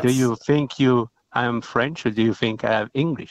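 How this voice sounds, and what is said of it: Real French accent. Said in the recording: “It's a real French accent”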